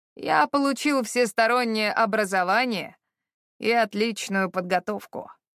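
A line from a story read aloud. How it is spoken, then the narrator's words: Suddenly gloomy voice. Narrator (Russian): резко помрачневшим голосом сообщил он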